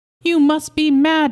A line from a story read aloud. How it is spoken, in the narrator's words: she cried